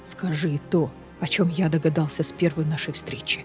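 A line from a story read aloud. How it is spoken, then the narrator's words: Whispered. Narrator (Russian): шепотом продолжал Кассиан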